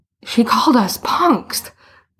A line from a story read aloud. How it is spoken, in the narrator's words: Boots gasped